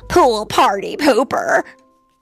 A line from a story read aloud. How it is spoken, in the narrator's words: muttered